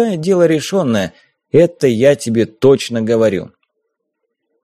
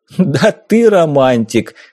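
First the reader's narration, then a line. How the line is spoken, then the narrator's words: Chuckling. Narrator (Russian): хохотнул Зимин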